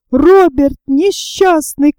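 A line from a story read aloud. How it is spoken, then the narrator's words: Shout. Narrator (Russian): крикнул Гленарван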